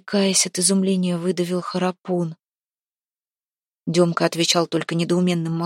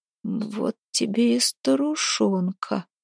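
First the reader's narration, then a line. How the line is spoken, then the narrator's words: Hoarse wheeze. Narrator (Russian): прохрипел позади Храпун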